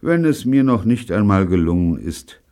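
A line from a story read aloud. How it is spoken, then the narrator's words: Sad. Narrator (German): sagte Neil traurig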